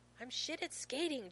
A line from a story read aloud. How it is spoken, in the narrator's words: John snaps